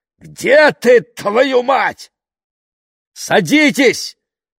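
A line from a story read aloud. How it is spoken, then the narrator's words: Shout. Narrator (Russian): крикнул Мэтью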